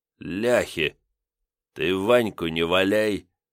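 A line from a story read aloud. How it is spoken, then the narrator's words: Through gritted teeth. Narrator (Russian): сквозь зубы процедил Ливер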